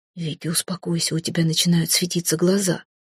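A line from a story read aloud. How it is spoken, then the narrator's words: Quiet speech. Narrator (Russian): тихо произнес Эрелив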